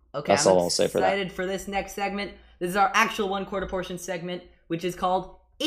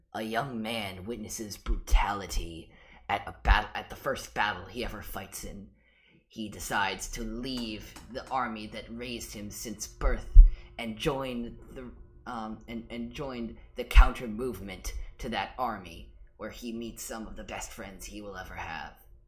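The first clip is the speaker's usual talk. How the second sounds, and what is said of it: Dramatic narrator voice. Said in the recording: “my narrator voice”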